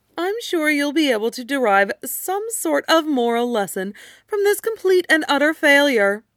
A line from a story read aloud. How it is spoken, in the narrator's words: Draco said cheerfully